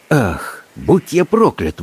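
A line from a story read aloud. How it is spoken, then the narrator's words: Breathed exclamation. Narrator (Russian): выдохнул доктор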